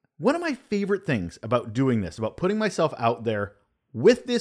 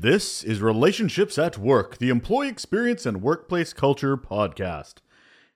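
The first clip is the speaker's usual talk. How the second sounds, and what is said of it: Announcer-style radio voice. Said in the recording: “that's me using my radio voice.”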